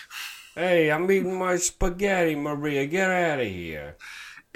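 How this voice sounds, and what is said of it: Put-on exaggerated New York accent. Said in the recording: “a crazy New York accent”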